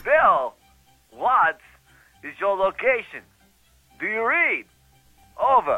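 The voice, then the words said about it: Bad Christopher Walken impression. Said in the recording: “changes your voice into a bad Christopher Walken impression.”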